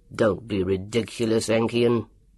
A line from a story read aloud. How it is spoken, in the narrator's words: grunted Dr